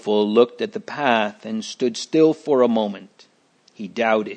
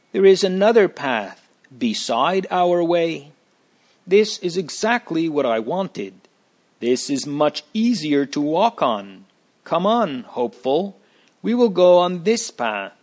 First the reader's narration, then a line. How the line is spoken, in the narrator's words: called out joyfully